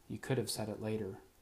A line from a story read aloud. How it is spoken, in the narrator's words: she muttered